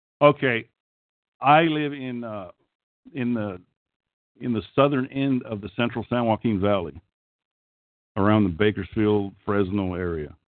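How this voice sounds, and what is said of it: Okie accent. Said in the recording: “I've always had an accent ... I always have had an Okie accent ... I sound like an Okie.”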